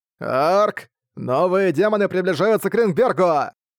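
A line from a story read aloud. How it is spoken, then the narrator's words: Shout. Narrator (Russian): прокричал Джастис Мэн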